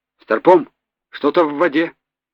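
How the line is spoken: Hurried. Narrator (Russian): торопливо проговорил один из матросов

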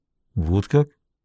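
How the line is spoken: Bewildered. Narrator (Russian): растерянно произнес Даффи

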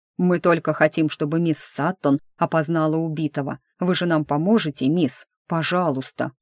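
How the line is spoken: Cough, then deep bass voice. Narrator (Russian): Сержант вдруг кашлянул и пробасил

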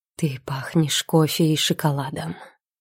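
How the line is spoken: Hoarse whisper. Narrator (Russian): шепчет хриплым голосом

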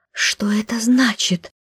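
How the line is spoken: Whisper. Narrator (Russian): прошептала я

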